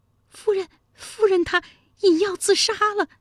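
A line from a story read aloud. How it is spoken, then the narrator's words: Breathless trembling maidservant. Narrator (Chinese): 一名婢女奔过来颤声说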